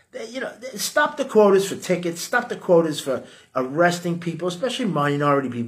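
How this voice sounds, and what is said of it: New York accent. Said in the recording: “I got a New York accent.”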